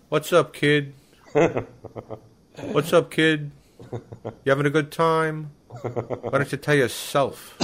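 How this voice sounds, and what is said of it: New York Long Island impression voice. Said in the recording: “my Jeffrey Ross impression ... It's just an impression, you know. It's a New York, New Jersey, Long Island voice”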